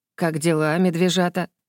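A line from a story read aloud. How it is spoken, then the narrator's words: Affectionate question. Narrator (Russian): ласково спросил Вардейк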